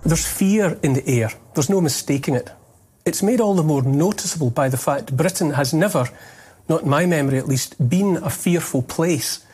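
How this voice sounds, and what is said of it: Heavy Scottish accent. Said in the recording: “heavy Scottish accent, but still understandable”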